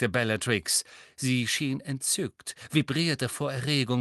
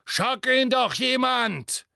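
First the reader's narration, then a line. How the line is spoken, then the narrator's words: Straining roar. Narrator (German): brüllte Neville und kämpfte so heftig gegen den Klammergriff seines Bewachers an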